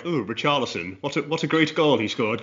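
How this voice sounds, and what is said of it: Put-on posh English accent. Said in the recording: “put on a posh voice”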